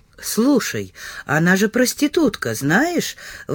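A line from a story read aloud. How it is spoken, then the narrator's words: Indignant exclamation. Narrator (Russian): возмущенно воскликнул он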